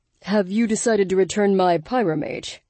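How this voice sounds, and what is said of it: Calm deep male character voice. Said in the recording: “calm, deep voice”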